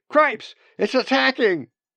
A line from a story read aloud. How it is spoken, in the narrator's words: the other one shouted